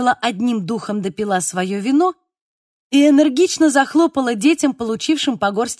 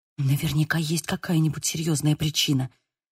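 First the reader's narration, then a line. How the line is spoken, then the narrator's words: Whisper. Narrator (Russian): прошептала я ей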